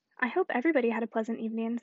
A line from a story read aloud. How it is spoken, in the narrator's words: said Mr